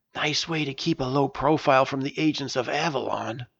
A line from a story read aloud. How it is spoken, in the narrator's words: Price whispered to Sean and me